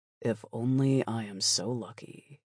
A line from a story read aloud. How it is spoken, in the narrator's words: I said quietly